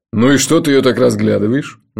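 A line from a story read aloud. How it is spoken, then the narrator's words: Mocking question. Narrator (Russian): насмешливо поинтересовался Джуфин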